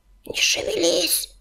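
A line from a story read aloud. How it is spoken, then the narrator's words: Hissed. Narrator (Russian): прошипел он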